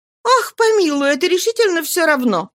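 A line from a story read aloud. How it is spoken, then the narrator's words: Exclaiming with loud laughter. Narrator (Russian): воскликнула с громким хохотом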